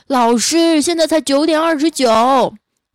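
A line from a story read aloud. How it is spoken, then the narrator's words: Exasperated shouting examinees. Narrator (Chinese): 场内的其他考生呢，看不下去了，就在那喊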